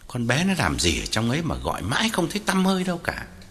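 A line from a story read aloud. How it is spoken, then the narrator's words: Old man muttering. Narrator (Vietnamese): Ông lẩm bẩm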